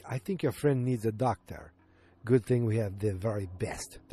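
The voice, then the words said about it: Poor put-on Russian accent. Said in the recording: “That's my terrible Russian accent.”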